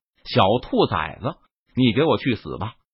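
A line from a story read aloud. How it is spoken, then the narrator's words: Furious, through gritted teeth. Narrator (Chinese): 大力魔王感觉自己受到了轻视，他顿时大怒，咬牙切齿道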